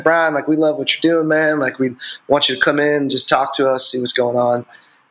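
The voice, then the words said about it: Put-on country accent. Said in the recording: “country accent”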